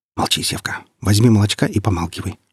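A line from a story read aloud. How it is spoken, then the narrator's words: Sharp whispered interruption. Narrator (Russian): шепотом оборвала его Алла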